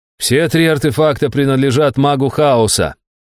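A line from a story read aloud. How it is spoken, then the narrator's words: Loud declaration. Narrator (Russian): громко произнес Стриж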